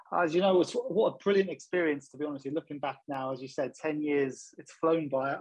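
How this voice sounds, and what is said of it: London accent. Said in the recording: “I'm a West Mead man with a London accent”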